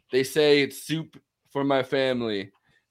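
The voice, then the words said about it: Impression of Donald Trump. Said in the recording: “great Trump impression”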